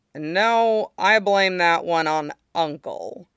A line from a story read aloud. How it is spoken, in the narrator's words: Zuko said dryly